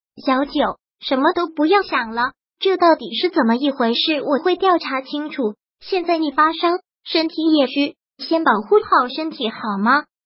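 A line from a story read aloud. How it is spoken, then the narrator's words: Tender, gentle. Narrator (Chinese): 陆亦辰……很温柔的……说道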